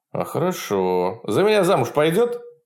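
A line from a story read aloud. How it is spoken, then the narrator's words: Laughing. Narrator (Russian): Фролов захохотал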